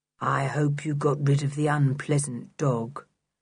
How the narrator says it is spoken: said Block in his monotonous voice

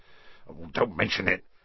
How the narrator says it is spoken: said Hagrid gruffly

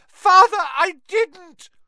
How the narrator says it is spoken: shrieked the boy in chains below

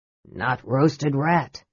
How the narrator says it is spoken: said Flint gruffly

